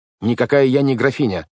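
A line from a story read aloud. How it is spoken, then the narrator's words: Snapping, extremely irritated. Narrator (Russian): огрызнулась Вайолет с запальчивостью, что в данном случае означает крайне раздраженным тоном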